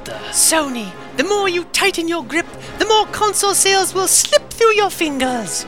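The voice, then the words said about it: Put-on British accent. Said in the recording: “my sudden British accent”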